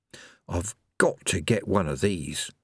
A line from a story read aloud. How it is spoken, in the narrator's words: he murmured